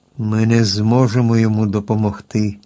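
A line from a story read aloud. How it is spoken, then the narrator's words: Sad sigh, iron woodman. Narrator (Ukrainian): сумно зітхнув залізний дроворуб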